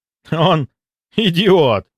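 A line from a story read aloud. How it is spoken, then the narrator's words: Relieved exhale, then laughter. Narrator (Russian): облегченно выдохнул Кравцов и, не удержавшись, расхохотался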